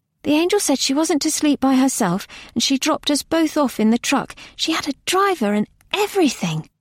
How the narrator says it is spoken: Nona said eagerly

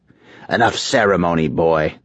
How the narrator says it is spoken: Grandmaster Naraka snapped

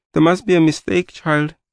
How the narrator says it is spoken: my mother said in a shaking voice

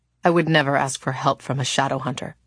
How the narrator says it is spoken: the woman said bitterly

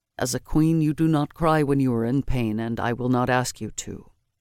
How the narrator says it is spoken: Matic said to her in a low voice

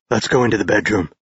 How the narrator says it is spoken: said gruffly

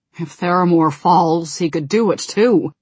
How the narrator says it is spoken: growled Varian

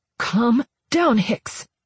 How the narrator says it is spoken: I hissed

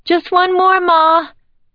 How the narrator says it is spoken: Emily yelled back

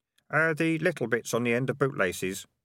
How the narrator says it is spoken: mumbled Keith

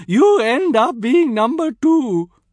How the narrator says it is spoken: she screeched at my uncle

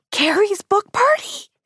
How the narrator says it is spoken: I squealed

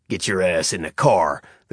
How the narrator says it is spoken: the cop snarled, his yat accent coming out full force

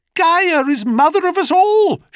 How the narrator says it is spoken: she cried

